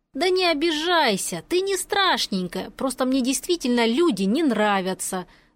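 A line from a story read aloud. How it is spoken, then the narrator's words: Conciliatory, from another room. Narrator (Russian): донеслось из комнаты примирительным тоном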